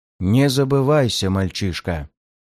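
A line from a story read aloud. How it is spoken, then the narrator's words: Menacing warning. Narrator (Russian): Грозно предостерег приспешник великого стража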